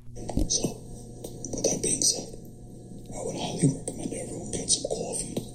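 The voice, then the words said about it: Thick New York accent. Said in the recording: “New York City ... we New Yorkers have thick accents”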